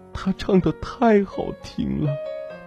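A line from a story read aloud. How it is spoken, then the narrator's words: Crying while speaking. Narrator (Chinese): 陆小七很没出息，边哭边说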